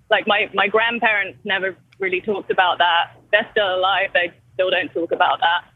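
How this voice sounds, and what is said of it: English accent. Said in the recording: “I've got an English accent, not an Irish accent”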